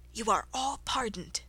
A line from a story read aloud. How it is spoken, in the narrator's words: the King say in a low voice